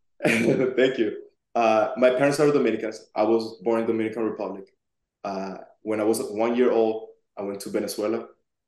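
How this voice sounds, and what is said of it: Strong Spanish-speaker accent. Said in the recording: “I have a really strong accent. ... it's an amazing accent.”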